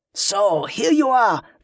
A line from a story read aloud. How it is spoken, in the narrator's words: the pirate shouted over the din